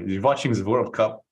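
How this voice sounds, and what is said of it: Put-on German accent. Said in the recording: “my German impression”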